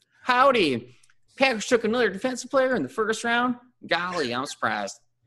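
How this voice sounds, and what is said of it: Exaggerated put-on Southern accent. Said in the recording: “I'm only gonna talk on a southern accent... pretty funny and pretty terrible... that sounds a little more Texas”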